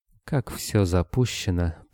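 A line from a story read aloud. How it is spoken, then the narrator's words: Mutter. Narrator (Russian): пробормотала официантка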